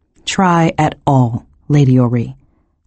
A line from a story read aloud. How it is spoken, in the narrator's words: Saruman said